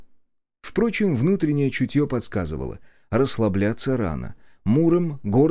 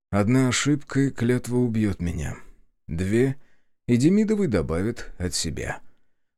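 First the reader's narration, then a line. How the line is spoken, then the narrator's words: Gloomy inner musing. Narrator (Russian): мрачно размышлял Черкасский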